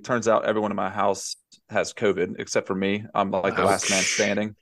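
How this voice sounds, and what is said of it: Smooth Southern US accent. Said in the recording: “smooth talking Southern gentleman”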